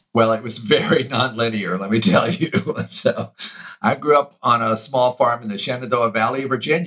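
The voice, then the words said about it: Southern American accent. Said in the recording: “I can tell you've got a Southern accent.”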